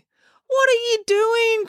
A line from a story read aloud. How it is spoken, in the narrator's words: cried Finn, horrified